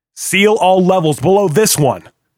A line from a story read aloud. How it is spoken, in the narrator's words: Hill hollered